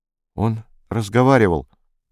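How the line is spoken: Strangled voice. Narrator (Russian): произнесла Майка сдавленным голосом

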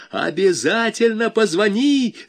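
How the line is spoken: Yell. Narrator (Russian): заорал Валька

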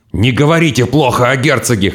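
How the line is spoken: Hoarse growl. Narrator (Russian): хрипло прорычал Гак

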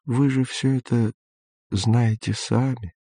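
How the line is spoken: Gentle old man. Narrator (Russian): ласково сказал старик

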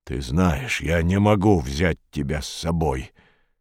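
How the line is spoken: Soft. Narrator (Russian): мягко сказал Боб

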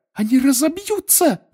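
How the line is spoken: Shrieked. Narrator (Russian): взвизгнула Гермиона

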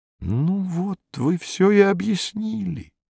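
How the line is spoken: Quiet, host speaking. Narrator (Russian): тихонько проговорил хозяин

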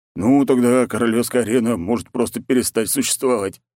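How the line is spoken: Man's wry snort. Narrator (Russian): хмыкнул мужичок

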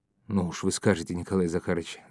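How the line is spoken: Embarrassed fat man's mumble. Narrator (Russian): забормотал толстяк, смутившись, словно девушка

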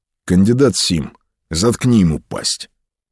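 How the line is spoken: Even, flat voice. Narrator (Russian): Ротмистер Чачу сказал ровным голосом

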